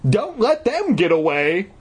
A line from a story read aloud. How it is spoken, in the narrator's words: cried